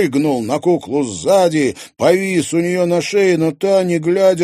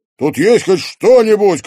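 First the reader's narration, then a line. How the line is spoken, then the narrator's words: Shouted. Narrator (Russian): крикнул он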